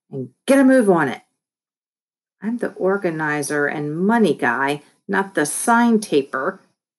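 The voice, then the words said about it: Bossy commanding voice. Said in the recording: “in my best boss voice”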